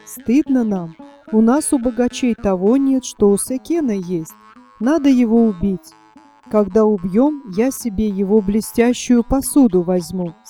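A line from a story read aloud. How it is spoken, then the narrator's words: Plain. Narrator (Russian): сказал один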